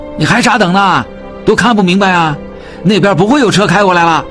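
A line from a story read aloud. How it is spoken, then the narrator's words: Passerby shouting. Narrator (Chinese): 从他们眼前经过的一个人喊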